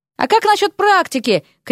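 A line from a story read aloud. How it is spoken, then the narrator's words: Shouted after someone. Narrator (Russian): крикнул ему вслед Дерек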